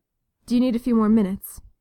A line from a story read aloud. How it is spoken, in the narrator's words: he asked